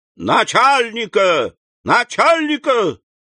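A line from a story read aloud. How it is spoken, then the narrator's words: Shouting during a speech. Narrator (Russian): в выступлении крикнул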